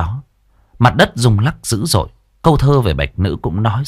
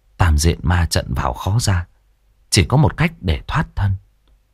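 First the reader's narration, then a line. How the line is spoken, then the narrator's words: Thoughtful muttering. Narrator (Vietnamese): Lãnh suy nghĩ một hồi, đoạn lẩm bẩm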